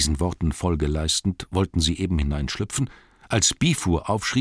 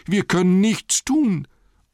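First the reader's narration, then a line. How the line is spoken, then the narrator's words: Group wailing. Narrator (German): jammerten die anderen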